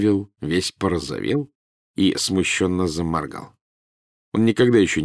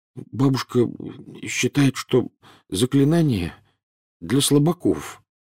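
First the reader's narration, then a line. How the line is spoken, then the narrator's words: Mumbling. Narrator (Russian): промямлил Невилл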